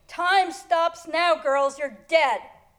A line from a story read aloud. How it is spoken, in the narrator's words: Patrick jumping through my window and onto my bed shouting